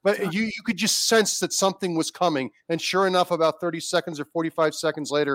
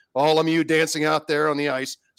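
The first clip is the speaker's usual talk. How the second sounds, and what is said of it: Imitation of a hockey broadcaster. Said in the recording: “I'm doing your imitation here.”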